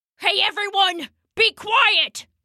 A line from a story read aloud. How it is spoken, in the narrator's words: shouted Rambo